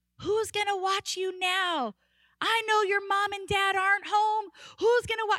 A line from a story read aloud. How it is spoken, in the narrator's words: I start hearing him yelling